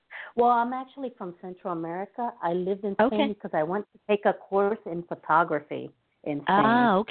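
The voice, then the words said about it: Beautiful Spanish-sounding accent. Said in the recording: “I love your accent. It is so beautiful. What part of Spain are you from?”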